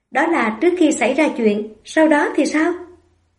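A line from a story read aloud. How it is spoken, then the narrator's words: Faint mocking smile. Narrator (Vietnamese): cười nhạt nói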